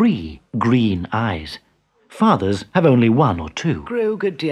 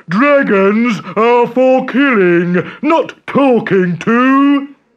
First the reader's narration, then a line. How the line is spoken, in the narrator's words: roared